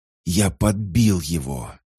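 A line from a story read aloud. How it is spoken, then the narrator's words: Hoarse exhale. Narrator (Russian): сипло выдохнул Патрик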